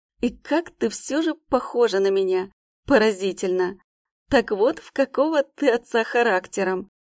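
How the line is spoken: Laughing. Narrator (Russian): Рассмеялся он

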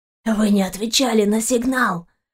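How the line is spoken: Man moaning. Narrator (Russian): простонал мужчина

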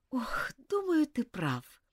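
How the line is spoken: Sighing. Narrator (Russian): вздохнула Элизабет

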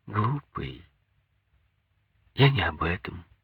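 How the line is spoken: Affectionate. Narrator (Russian): сказала ласково

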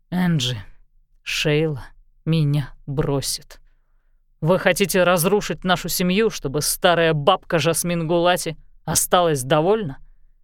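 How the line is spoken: Low clipped voice. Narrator (Russian): Низким отрывистым голосом он проговорил

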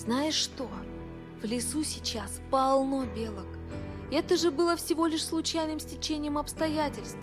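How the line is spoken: Inner whisper. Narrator (Russian): Билл услышал, как другой голос прошептал у него в голове

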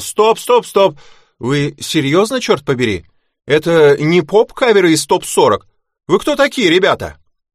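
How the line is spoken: Angry manager shouting. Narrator (Russian): менеджер, весь красный, и закричал

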